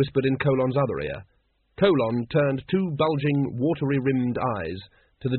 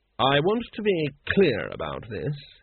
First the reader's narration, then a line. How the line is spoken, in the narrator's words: said coldly